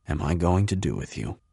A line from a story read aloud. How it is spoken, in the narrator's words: he whispers